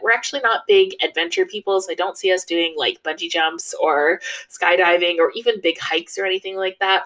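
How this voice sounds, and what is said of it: North American accent. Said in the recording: “As you can tell from my accent, I am from North America”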